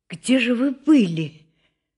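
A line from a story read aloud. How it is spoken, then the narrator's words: Frightened whisper. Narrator (Russian): спросил она испуганным шепотом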